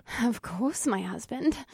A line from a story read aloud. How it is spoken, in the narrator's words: Alyssa purred